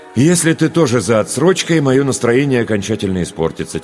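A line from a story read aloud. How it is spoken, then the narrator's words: Heavy sigh. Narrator (Russian): тяжело вздохнул я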